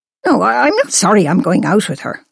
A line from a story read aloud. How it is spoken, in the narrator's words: snapped